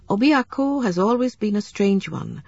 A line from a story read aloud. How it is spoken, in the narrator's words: said Wakibie